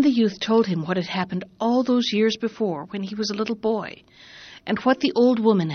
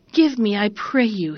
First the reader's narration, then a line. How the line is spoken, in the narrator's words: he cried